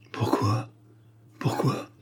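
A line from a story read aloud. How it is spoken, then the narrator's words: Stunned stammering. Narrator (French): balbutia Treadle stupéfait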